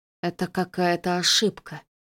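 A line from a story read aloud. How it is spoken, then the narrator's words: Mumbling. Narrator (Russian): промямлил Рин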